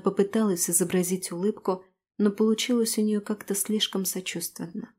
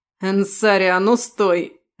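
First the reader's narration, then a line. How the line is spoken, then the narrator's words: Harsh bark. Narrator (Russian): рявкнул боевик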